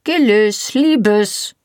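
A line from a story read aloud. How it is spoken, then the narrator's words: Reserved yet commanding call. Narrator (German): rief eine Stimme vor der Tür, zurückhaltend und doch gebieterisch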